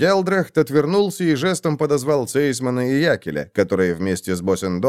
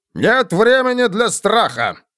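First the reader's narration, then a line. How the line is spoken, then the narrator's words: Sharp bark. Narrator (Russian): рявкнул фон Гелдрехт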